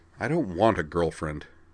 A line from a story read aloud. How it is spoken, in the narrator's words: Corwin replied testily